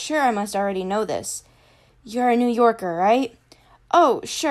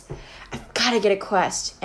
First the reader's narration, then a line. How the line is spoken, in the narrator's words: Annabeth muttered to herself